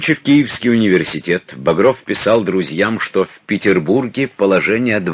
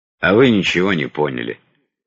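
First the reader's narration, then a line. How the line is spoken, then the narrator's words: Gloomy reply. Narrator (Russian): мрачно ответил Багров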